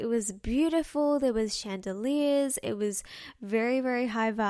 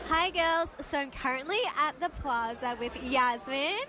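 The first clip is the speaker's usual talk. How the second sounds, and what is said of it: Yelling over loud background. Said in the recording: “I'm kind of yelling into my phone because it was really loud around us ... if I sound like I'm yelling, I really was yelling”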